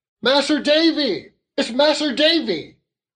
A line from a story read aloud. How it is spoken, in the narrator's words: Ham shouted